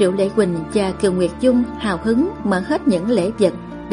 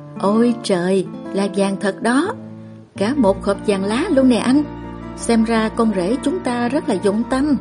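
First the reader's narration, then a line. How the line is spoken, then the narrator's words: Smiling, pleased. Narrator (Vietnamese): thì cũng nhất thời mỉm cười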